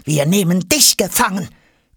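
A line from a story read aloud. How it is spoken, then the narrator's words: Growling. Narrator (German): knurrt Jonas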